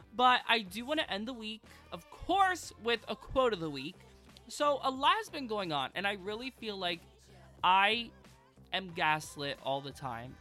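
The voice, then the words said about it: Nasal, congested voice. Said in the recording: “sorry about my voice. It probably sounds horrible. I'm all, like, nasally and congested”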